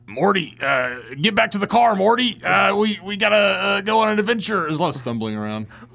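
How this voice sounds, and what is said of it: Cartoon character voice impression. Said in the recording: “Can you do Rick and Morty impressions? That's like that's my favorite impression to do.”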